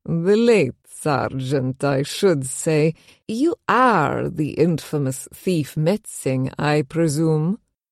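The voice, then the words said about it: Heavy accent, thick V's, rolling R's. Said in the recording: “He had a heavy Mernsky accent, all thick V's and rolling R's.”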